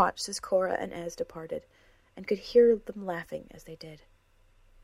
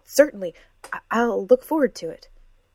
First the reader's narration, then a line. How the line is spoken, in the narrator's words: Emery stuttered, but he managed to say